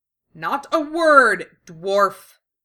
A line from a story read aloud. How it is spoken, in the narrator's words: Cassandra snaps at him